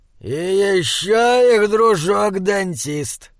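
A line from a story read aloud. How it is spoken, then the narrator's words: Growl. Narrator (Russian): прорычал он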